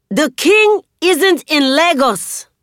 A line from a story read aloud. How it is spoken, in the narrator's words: I shout